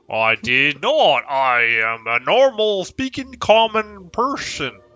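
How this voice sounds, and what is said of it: Troll-sounding put-on character accent. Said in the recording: “I hear the accent gets worse... That sounds like Troll.”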